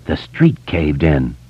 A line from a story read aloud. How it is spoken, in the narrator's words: Bill whispered